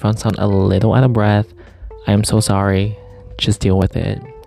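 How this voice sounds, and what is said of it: Breathless, out-of-breath speech. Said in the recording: “sorry if I sound kind of out of breath ... oh my god, I'm out of breath”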